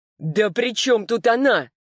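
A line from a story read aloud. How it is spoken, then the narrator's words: Genuine shout. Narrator (Russian): Уже натурально закричал он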